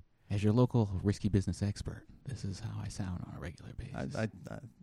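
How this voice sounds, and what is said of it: Soft-spoken, quiet, hushed voice. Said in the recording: “He's so soft-spoken ... not coming through as loud as we are ... taking on this librarian whisper ... Talk like he thinks he's on NPR.”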